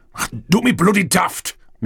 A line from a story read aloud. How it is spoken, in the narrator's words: Mick snapped